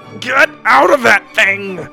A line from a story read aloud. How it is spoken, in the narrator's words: Wonka shouted to the kids from a headlock